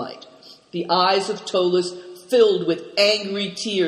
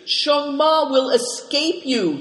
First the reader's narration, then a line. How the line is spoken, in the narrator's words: wailed